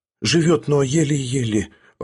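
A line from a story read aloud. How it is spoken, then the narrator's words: Timid whisper. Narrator (Russian): робко прошептал он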